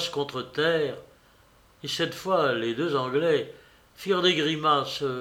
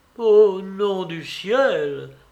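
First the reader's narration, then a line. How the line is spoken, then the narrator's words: Exclaimed. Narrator (French): s'écria Trajan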